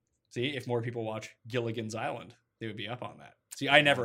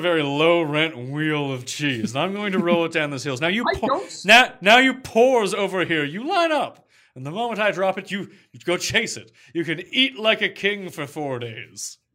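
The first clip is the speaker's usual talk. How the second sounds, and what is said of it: Imitates another person's voice. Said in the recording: “like Thurston Howell the Third... That impression sounds just like him.”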